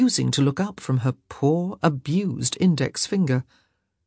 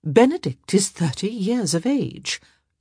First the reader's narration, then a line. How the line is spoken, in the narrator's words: Lady Bridgerton said in a mild voice